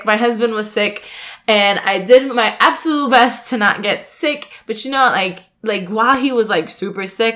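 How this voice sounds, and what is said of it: Congested, nasal voice. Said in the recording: “you can probably hear from my voice that I am a little congested because once again, I am sick”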